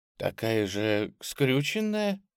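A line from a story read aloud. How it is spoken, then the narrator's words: Sad, smiling. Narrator (Russian): грустно улыбнулась Анна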